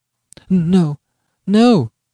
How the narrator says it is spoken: she faltered, shuddering, with her expanded eyes fixed on her husband

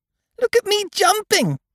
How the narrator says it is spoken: squeaked Roo

